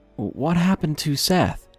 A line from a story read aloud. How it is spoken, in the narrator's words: mumbling